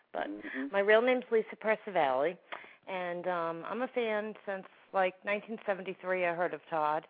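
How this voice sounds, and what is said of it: New York accent. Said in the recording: “I'm from New York, in case you can't tell from my accent ... he makes fun of my New York accent”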